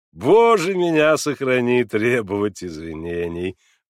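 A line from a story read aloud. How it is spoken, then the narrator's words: Laughing. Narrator (Russian): подхватил он, смеясь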